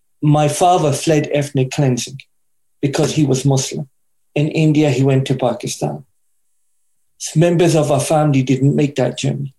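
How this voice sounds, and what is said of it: British English accent. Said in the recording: “my father migrated to UK, which you may be able to tell by the accent, is where I grew up”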